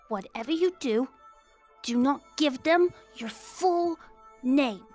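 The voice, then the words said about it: Whispering. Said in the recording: “This is me whispering”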